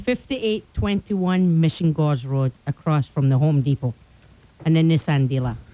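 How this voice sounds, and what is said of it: Scottish accent. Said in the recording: “Don't you just love that accent? ... Scottish.”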